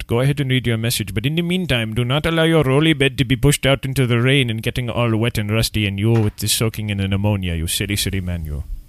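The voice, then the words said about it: Obviously fake Indian accent. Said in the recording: “my obviously fake Indian accent”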